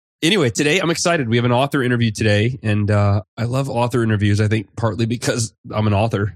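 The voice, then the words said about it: Congested voice with a cold. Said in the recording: “I've got a little bit of a cold, so you might hear me clearing my throat or sniffing”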